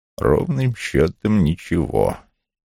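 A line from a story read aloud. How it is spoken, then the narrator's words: Curt grumble. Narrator (Russian): Вулф буркнул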